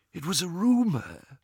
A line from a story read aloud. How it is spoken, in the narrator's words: whispered Ollivander